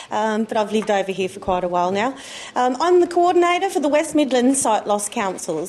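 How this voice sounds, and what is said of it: Australian accent. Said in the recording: “accent. It might be a bit different. It's Australian”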